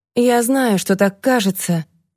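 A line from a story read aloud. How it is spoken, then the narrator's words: Sigh. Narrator (Russian): вздохнул Тедди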